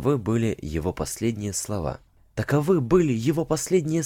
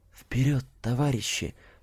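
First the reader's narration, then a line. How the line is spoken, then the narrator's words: Whispered. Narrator (Russian): прошептал он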